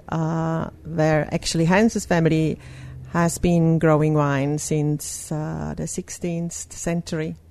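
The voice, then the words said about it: Strong Swiss accent. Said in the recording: “our accent is still quite strong. And it comes from Switzerland”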